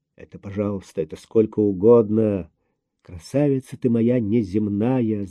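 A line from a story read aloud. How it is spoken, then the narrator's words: Mumbling. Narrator (Russian): забормотал Андрей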